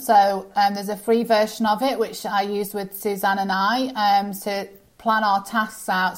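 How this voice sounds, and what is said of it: Speaks with a noticeable accent. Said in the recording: “Sorry, it's my accent.”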